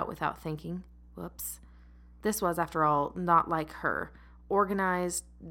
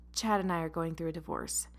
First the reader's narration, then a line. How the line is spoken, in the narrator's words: explained through a sigh